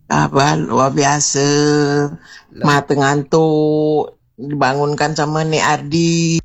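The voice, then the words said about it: Hoarse, sleepy-sounding voice. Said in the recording (Indonesian): “jadi suara tu serak kan? ... apa sebab suara serak ni? Macam tak sedap suara je. ... Kalau dah tidur pun macam itulah, di suara tu serak.”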